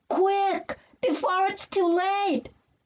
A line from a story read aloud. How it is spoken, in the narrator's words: I yelled